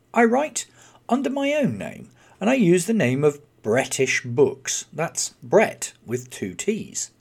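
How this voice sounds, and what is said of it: British English accent. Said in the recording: “my accent, I am from the UK”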